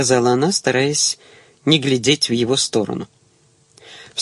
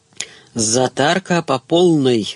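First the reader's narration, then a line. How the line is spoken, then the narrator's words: Joyful announcement. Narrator (Russian): радостно возвестил Кузин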